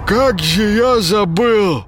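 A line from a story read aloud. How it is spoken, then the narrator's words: Strained, throat-clearing. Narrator (Russian): откашливаясь, выдавил из себя Паша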